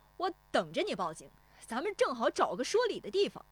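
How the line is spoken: Fearless shout. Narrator (Chinese): 石丽华也不怯他喊

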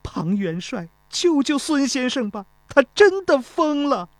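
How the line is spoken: Crying. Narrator (Chinese): 钟离秋哭道

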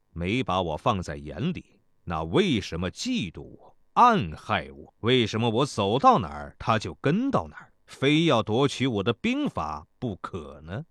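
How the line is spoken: Cold. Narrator (Chinese): 孙膑冷冷地说道

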